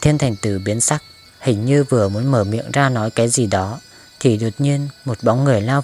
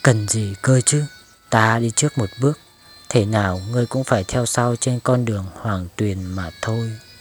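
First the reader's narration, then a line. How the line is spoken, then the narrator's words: Low smirking whisper. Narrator (Vietnamese): Cửu Vong Ngữ ... nhếch miệng cười, sau đó hạ giọng xuống nói với mức âm thanh chỉ Thiên Thành Tử mới có thể nghe được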